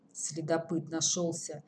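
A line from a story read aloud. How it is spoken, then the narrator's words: Gruff mutter. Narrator (Russian): буркнул Тимур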